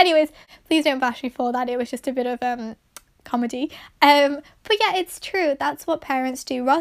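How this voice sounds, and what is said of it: Usual voice. Nothing is said of it.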